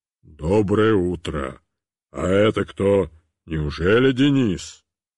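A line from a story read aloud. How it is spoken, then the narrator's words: Terrible deep bass. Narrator (Russian): Он сказал ужасным басом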